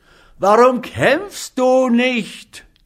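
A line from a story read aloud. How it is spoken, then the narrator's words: Angry group shouting. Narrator (German): schrien sie Rivera zornig zu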